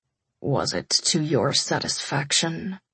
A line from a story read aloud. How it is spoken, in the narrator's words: he croaked